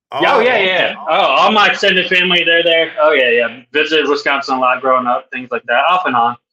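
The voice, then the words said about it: Southern American accent. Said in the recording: “I'm the only one in my family with a Southern accent”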